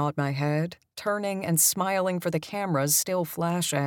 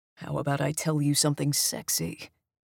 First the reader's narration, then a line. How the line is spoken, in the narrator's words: he says in a low voice